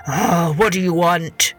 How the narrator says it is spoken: the old man growled

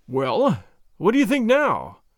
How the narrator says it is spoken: I gasped

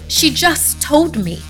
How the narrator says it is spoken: I cried

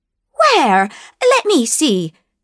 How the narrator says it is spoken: cried Mrs

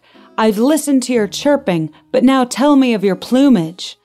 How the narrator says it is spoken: Delbert shouted back

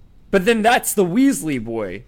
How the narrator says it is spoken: shouted Lucius

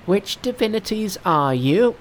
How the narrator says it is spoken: cried Monkey

